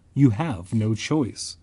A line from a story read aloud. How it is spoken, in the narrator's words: Eloise said softly